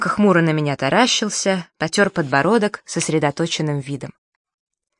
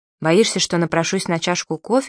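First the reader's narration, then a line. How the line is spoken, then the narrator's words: Plain question. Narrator (Russian): спросил Димка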